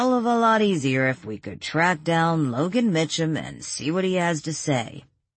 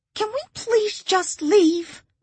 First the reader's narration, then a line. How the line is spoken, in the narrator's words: Arlene pleaded